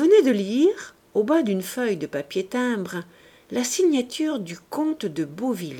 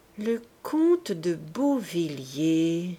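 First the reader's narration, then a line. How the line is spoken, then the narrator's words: Slow, thinking aloud. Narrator (French): reprit-il lentement, réfléchissant tout haut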